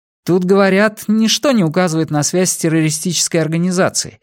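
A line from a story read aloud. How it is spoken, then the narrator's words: Plain. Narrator (Russian): сказал Сами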